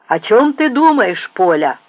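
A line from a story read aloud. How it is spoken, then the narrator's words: Old woman's deep shout. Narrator (Russian): густым голосом прокричала старуха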